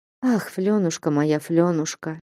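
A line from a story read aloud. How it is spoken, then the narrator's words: Sighing. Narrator (Russian): вздохнула Манефа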